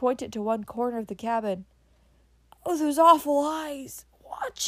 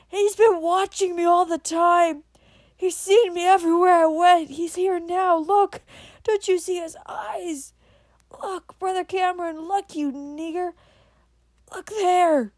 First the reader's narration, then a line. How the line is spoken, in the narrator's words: in a scream of anguish again